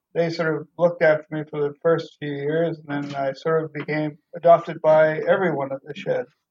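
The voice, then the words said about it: Canadian accent. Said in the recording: “I detect an accent ... I started in Canada. That's where I was born and I grew up.”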